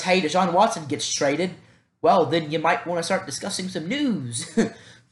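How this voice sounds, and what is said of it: Southern US accent. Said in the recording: “I don't know if I have an accent that bad... I am from the South, so if there's a heavy accent”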